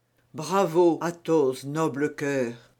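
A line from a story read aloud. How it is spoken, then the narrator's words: Murmured. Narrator (French): murmura d'Artagnan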